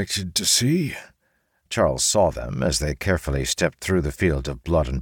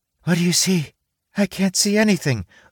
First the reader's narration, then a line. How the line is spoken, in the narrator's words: the rock cried from inside the wheelbarrow